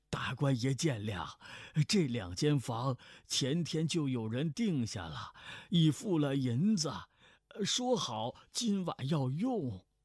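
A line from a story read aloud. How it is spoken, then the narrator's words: Ingratiating, apologetic shopkeeper. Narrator (Chinese): 掌柜的陪笑说道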